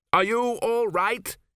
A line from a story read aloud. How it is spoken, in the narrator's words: he shouted above the wind